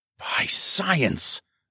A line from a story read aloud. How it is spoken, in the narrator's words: I gasped